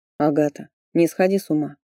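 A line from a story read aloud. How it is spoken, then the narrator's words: Cold advice. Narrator (Russian): холодно посоветовал он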